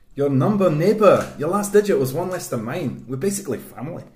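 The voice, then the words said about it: Put-on Scottish accent. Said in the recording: “I'm going to do Scottish for mine.”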